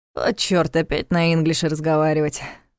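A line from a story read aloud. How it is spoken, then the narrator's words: Sighing, in Russian. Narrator (Russian): по-русски вздохнул Ваня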